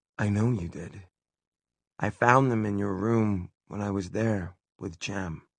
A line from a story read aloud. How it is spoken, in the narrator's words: Tessa heard herself say very calmly